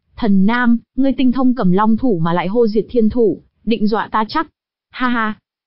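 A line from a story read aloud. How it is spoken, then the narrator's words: Laughing loudly. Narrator (Vietnamese): Hắn ha hả cười lớn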